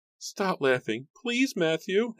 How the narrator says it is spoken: his wife pleaded

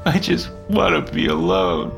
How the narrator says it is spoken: said through his sobbing

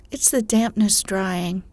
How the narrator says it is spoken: replied Joe

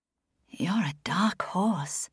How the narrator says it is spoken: she purrs, but Stephanie can hear the arousal in her voice

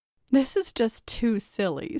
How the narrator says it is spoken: said Sandra, giggling nervously

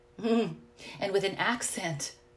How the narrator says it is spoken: I blurted out

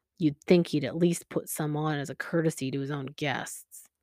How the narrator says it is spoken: muttering to himself

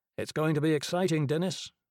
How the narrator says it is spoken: Mally said

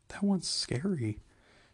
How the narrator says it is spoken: she admitted hesitantly

